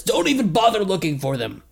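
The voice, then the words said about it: Imitated character voice. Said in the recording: “my impression of what he sounded like”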